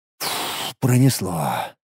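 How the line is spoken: Relieved exhale. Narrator (Russian): облегченно выдохнул

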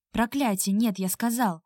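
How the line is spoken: Sudden fierce bark. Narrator (Russian): Рявкнул он так, что я от неожиданности присела

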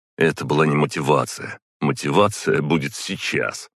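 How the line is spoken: Smirking grunt. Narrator (Russian): хмыкнул Димка

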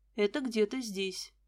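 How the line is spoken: Quiet. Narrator (Russian): Дмитрий тихо сказал

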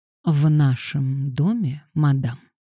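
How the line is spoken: Purred. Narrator (Russian): промурлыкал он

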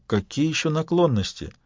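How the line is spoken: Sigh. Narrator (Russian): Полицейский вздохнул

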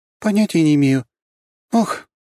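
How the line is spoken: Sharp cry. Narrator (Russian): скрикнула она

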